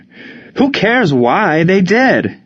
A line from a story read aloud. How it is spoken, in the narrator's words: Ward screamed